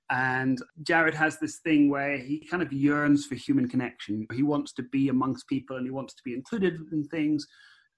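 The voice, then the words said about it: Scottish accent. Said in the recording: “By your accent, you're a Scot”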